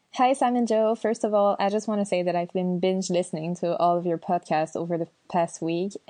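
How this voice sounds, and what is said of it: French Canadian accent. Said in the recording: “French Canadian, and I love her accent as well ... I'm a French Canadian”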